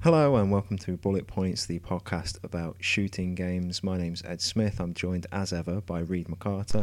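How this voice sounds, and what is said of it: Posh English accent. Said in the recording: “posh English accent of yours ... That condescending, cultivated, Oxbridge-sounding voice.”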